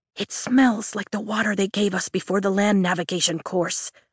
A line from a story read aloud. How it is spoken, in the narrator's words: I whisper